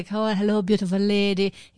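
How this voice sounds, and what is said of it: Attempted French accent sounding Irish. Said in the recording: “That was a hard, that was an Irish French accent.”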